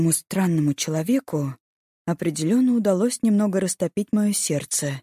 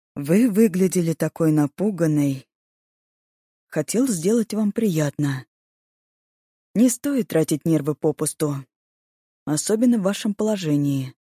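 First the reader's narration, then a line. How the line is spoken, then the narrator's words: Soft, gentle. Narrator (Russian): Виктор широко улыбнулся и мягко сказал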